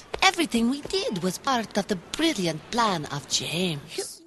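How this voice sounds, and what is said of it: Exotic Polish accent. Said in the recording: “made the spider exotic with a Polish accent”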